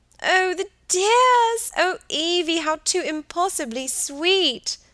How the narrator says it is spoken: screamed Helen

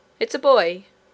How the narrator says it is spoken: cried several of them together, in a tone of amazement

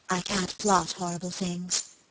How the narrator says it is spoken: she muttered presently

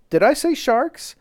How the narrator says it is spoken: exclaimed hastily

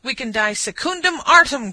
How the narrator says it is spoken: cried the trooper

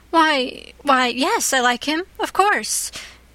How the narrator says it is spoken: gasped Anne

